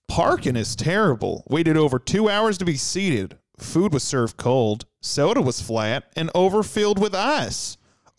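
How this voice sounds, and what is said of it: Put-on Southern accent. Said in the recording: “I'm going to do it in a what's a Louisiana accent? ... Well, Cajun accent. I don't know Cajun. We're going to go with Southern.”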